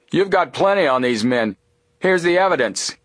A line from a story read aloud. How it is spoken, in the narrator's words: He called out